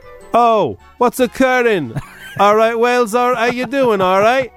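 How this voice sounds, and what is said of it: Poor put-on Welsh accent. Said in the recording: “It's a terrible accent. I can't do the Welsh accent. ... It started okay.”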